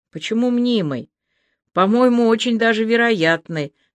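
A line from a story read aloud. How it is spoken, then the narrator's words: Sigh. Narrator (Russian): вздохнула Аля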